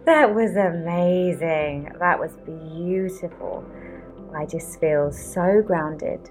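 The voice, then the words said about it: Calm, relaxed voice. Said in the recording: “hear the calm in my voice.”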